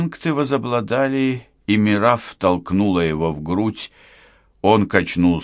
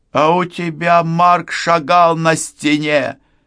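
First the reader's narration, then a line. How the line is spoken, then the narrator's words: Shouting. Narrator (Russian): закричала Мирав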